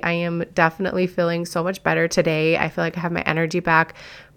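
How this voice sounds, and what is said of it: Slightly scratchy voice. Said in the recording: “my voice is a little scratchy ... bronchitis”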